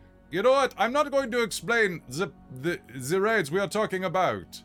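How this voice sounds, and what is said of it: Usual voice. Nothing is said of it.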